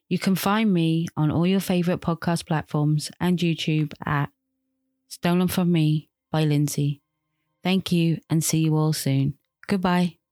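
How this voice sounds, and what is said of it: Soothing UK accent. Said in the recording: “I love her accent ... we've had three podcast promos from the UK ... I really love hearing the different like nuances of people's dialects ... I love her voice. It's incredibly soothing”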